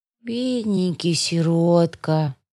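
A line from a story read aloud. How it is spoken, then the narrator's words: Sighing declaration. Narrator (Russian): вздохнула она и заявила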